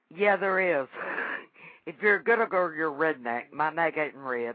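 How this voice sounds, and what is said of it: Southern American accent. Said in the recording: “I love your accent. ... I'm a Southern girl. ... You are definitely a Southern girl.”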